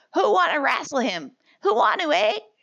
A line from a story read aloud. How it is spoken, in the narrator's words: two boys cried